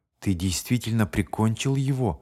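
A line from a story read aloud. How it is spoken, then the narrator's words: Quiet question. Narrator (Russian): спросил он тихо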